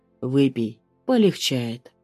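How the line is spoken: Calm offer. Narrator (Russian): предлагает спокойно

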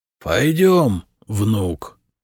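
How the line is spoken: Creaky feigned frail old voice. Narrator (Russian): проскрипел Хиндасвинт, по своему обыкновению притворяясь немощным старцем

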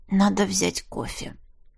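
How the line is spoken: Mumbled. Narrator (Russian): пробормотала я

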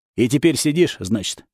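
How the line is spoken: Snorting remark. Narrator (Russian): хмыкнул

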